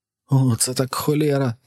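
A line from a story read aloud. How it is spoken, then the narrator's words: Trembling cry. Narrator (Ukrainian): зойкнув Персі тремтячим голосом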